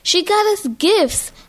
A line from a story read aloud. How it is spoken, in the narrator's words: my sister Kia exclaimed, jumping up and down on the couch with joy